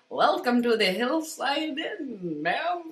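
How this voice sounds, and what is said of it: Poor attempt at Irish accent. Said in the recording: “I can't do an Irish accent, clearly. ... No, that was terrible.”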